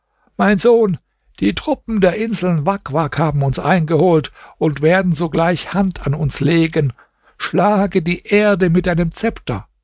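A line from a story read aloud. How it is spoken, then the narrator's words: Old woman calling out. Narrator (German): die Alte rief ihm zu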